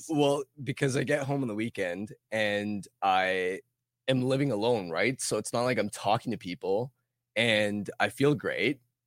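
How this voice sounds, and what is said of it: Hoarse, rough voice. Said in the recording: “I am a little under the weather ... my voice is a little shot ... I didn't really realize how bad my voice still is ... oh boy, this is kind of rough”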